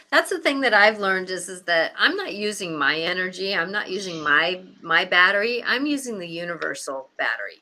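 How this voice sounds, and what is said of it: Slightly raspy, off voice. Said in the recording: “you could probably hear it in my voice a little bit uh, is a little off, you know, a little raspy”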